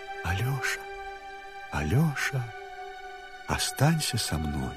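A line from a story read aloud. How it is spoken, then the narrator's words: Quiet speaking. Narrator (Russian): она тихонько ему говорит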